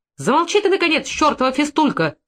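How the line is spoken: Louder shout. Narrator (Russian): крикнула еще громче Марья Ивановна и от нервности

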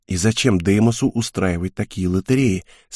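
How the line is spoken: Quiet question. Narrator (Russian): спросил я также тихо

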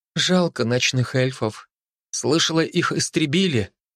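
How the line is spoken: Sighing. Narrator (Russian): вздохнула Инди

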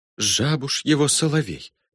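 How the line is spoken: Perfunctory whisper. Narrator (Russian): прошептала для порядка Матильда

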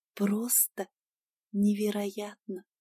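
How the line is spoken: Whisper. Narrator (Russian): шептала

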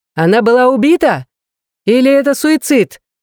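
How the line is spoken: Shouted out. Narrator (Russian): выкрикнул один из репортеров

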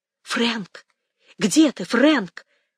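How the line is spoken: Loud whisper calling. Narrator (Russian): позвала она громким шепотом

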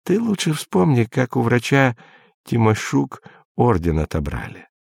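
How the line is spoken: Plain. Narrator (Russian): сказал Изя

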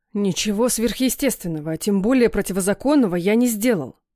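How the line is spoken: Father growling. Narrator (Russian): прорычал папа

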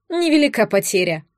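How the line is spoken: Snorted. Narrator (Russian): фыркнула служанка

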